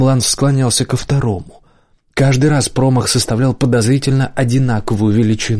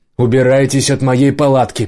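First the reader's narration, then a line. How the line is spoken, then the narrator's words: Shouting male voice. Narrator (Russian): прокричал в ответ мужской голос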